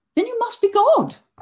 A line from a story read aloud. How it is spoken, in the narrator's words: the queen replied, with perhaps a tinge of sarcasm now in her royal voice